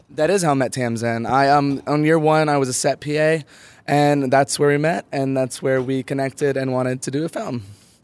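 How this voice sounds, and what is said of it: Hoarse, fading voice. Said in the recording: “Sorry, my voice is going out. I've had too much fun at the film prize this weekend”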